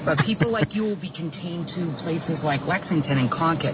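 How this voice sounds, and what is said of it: Medford-area Massachusetts accent. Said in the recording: “I love the accent.”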